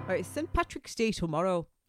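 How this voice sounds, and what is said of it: Put-on Irish accent, unconvincing. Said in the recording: “Why are you speaking Welsh? ... I'm talking like an Irishman. ... You're really not.”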